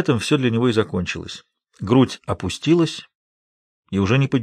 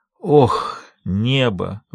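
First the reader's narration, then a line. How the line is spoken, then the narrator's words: Breathless exclamation. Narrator (Russian): выдохнул Сэм Вердро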